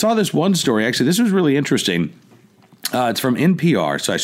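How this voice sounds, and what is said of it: Usual voice. Nothing is said of it.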